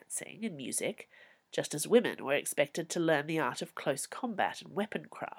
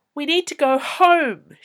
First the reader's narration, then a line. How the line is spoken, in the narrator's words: she yelled in his face